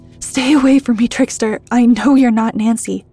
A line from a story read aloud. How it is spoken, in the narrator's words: shouted Bernard with his fists up in warning